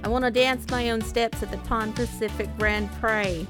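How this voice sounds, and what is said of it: Very bad put-on accent. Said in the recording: “That's a very bad accent.”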